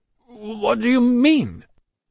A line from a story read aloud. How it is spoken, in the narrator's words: stammered